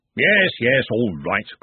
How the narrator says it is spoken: grumbled Ridcully

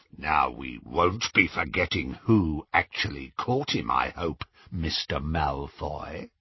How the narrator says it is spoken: said Greyback menacingly

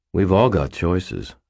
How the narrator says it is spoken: I said calmly

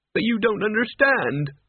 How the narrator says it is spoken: Mort wailed

